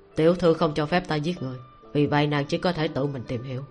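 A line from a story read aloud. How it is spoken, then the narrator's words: Cold, smirking. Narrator (Vietnamese): lạnh lùng, cong môi cười một tiếng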